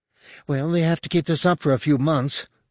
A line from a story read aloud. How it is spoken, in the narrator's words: Zack said wearily